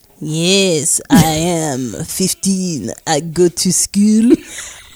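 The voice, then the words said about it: English spoken in French accent. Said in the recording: “you're answering in English in a French accent.”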